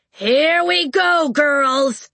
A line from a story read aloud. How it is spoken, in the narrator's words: Red Tooth shouted